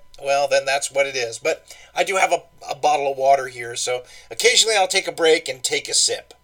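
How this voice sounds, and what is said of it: Voice sounds a little off. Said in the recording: “Forgive my voice. I'm a little bit, got a little bit of the allergy thing going today. So if I sound a little different,”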